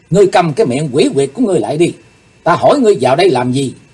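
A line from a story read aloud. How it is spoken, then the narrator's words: Angry. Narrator (Vietnamese): Càng thêm tức giận, Chí Tôn trợn mắt nói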